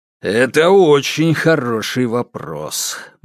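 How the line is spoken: Gloomy confirmation. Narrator (Russian): мрачно подтвердил Сидоров

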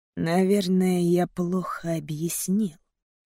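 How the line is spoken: Smirking hiss. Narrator (Russian): прошипеть, ухмыльнувшись

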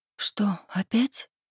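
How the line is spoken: Whisper. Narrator (Russian): прошептала я

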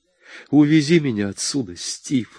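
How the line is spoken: Sobbing. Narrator (Russian): рыдала

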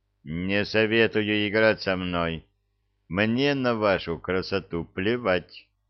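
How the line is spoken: Cold. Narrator (Russian): холодно сказал он

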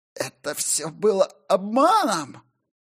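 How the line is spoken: Hoarse, tinged with madness. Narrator (Russian): Просипел Матфей, и Гилера ощутила нотки безумия в его голосе

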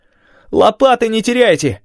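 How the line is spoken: Shout. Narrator (Russian): крикнул Делл

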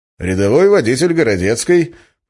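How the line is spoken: Cheerful, clowning answer. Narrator (Russian): почему-то столь же бодро и даже дурашливо ответил я

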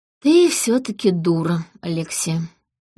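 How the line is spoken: Tired. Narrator (Russian): устало ответил он

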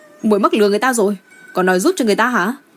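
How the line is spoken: Hurried shout. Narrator (Vietnamese): Chàng chỉ còn kịp hét lên với Đinh Thiển Hà

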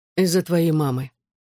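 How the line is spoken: Plain reply after pause. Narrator (Russian): наконец ответил

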